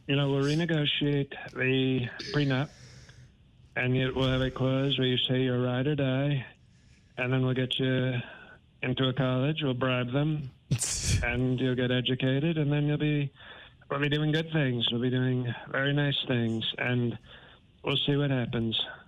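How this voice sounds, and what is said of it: Imitates another person's voice. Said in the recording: “you just gave Alec Baldwin a run for his money with his Trump impression ... like the dialect, like just the mannerisms from him”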